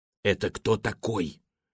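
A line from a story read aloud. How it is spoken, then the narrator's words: Whispered question. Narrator (Russian): шепотом спросила она у Стрешнева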